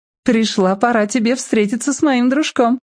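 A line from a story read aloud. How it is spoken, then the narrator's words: Giggling, female. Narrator (Russian): хихикнула она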